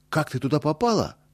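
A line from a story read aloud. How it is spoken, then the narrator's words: Alarmed exclamation. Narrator (Russian): тревожно воскликнул Боря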